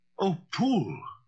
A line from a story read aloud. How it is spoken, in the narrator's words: the lawyer cried